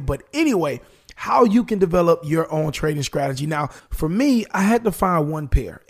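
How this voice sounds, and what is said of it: Slightly raspy voice. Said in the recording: “my voice is a little raspy. Hopefully it doesn't go out on me”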